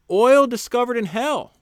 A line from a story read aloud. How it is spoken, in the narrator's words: the prospector shouted